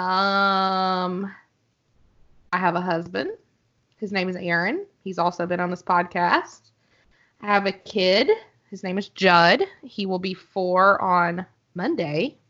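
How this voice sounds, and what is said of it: Arkansas accent. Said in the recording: “I'm from Arkansas, hence the accent.”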